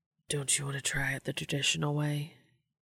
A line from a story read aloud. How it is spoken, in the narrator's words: Dean whispered